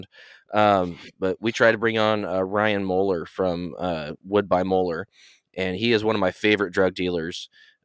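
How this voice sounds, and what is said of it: Rough, unwell-sounding voice. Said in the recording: “I'm really not feeling good, so my voice is a little bit jacked up. So I apologize for the way that I sound.”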